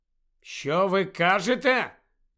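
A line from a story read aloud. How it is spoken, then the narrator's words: Loud question. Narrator (Ukrainian): голосно запитав він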